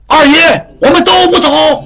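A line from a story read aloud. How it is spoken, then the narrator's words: Men shouting in unison. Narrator (Chinese): 众男丁们齐声喊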